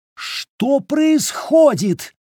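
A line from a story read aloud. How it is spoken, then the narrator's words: Hysterical scream. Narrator (Russian): истерично завопила Римма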